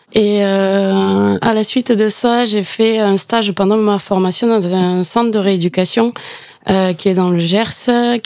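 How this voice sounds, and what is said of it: Southwestern French regional accent. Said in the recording (French): “je suis originaire du Gers. Mon accent va me trahir, je pense.”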